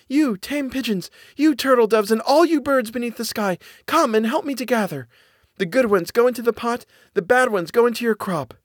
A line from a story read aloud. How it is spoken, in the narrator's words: called out